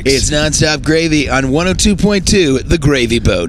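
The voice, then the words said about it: Radio DJ announcer voice. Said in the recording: “the radio voice”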